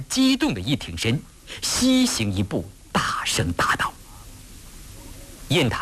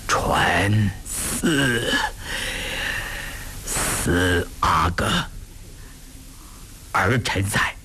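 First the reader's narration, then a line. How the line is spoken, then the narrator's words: Strained, through gritted teeth. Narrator (Chinese): 康熙咬着牙，一脸狞笑，仿佛聚集着最后的力量，半日才说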